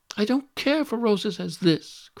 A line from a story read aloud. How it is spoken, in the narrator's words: cried, tossing it contemptuously away